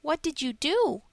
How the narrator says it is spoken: he asked, his voice full of sympathy

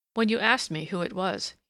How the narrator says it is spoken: he murmured

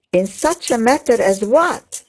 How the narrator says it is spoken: said Eleanor very testily

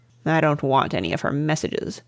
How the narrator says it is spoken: growled his lordship

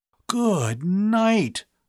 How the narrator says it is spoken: Bud gasped in a stunned voice

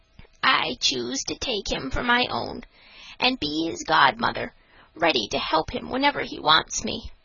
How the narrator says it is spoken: said in a mysterious whisper

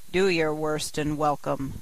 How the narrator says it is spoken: said the brute

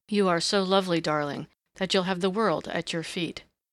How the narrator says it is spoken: said the young man huskily

